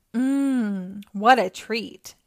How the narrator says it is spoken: she said

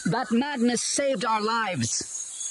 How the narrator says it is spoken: Lucia shouted

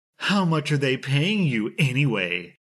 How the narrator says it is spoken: in a condescending tone

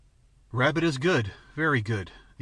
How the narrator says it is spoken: the ancient quavered

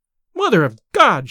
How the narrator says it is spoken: she cried

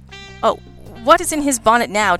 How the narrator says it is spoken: Jack snapped

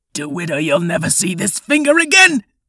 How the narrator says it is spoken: Miles whimpered

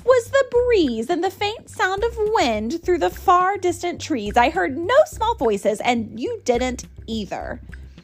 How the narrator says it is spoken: snapped the kangaroo

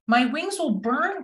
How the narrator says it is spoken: cried Owl

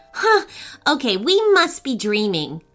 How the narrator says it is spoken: Otie stammered

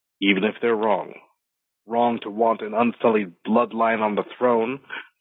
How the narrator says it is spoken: the center man on the crate snarled back

